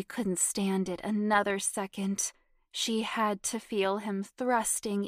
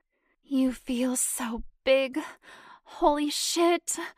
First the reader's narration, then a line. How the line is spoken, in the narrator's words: Janet groaned